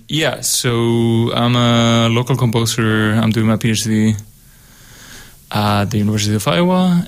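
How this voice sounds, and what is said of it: Spanish accent. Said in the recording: “I'm from Spain. That's why I have this accent.”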